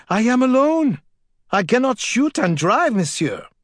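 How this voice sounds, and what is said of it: Fearful yelling in French accent. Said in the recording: “yelled back in a French accent. ... Fear frosted his words.”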